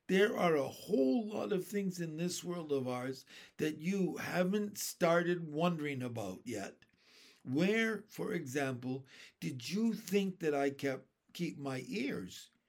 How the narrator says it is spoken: the old green grasshopper said gently

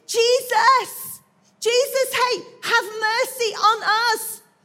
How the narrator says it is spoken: They start shouting

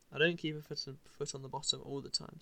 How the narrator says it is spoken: said Roger

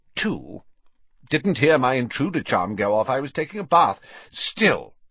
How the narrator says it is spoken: he added sternly

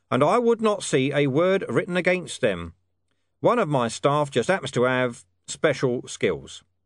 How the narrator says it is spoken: said in a level tone

